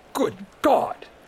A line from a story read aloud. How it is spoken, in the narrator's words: he wheezed